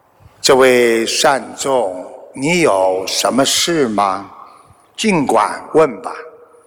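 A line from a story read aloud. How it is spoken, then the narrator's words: Slow calm question. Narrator (Chinese): 佛陀慢慢问道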